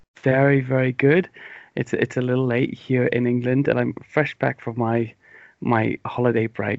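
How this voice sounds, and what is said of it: English accent, slightly mumbly. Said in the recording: “I might be a bit sleepy and a bit slow for you ... my stumbly mumbly English accent”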